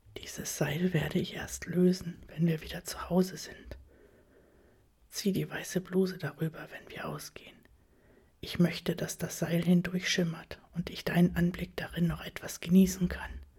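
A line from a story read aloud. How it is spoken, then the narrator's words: Whisper. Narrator (German): flüstert er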